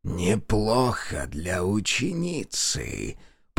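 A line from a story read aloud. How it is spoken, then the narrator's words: Hissing. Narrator (Russian): прошипел маг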